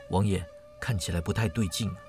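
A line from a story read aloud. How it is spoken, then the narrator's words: Soft, alarmed. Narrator (Chinese): 庄生暗自心惊，轻声说道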